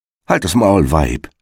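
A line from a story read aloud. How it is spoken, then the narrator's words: Plain. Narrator (German): sagte der Igel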